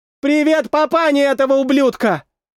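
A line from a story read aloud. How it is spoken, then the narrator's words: Girl shouting. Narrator (Russian): Прокричала девушка напоследок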